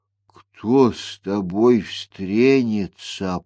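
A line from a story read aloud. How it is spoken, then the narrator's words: Old man muttering. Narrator (Russian): пробормотал дед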